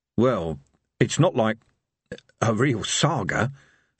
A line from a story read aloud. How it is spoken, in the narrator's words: said evil Harry hoarsely